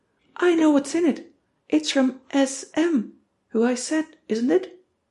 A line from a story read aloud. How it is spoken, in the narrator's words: shout, triumphantly